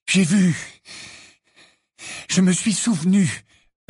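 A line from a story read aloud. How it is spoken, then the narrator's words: Breathless voice. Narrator (French): répondit Harry d'une voix haletante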